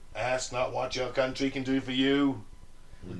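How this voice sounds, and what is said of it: Bad cartoon-mayor impression. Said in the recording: “my really bad impression of Mayor Quimby from The Simpsons”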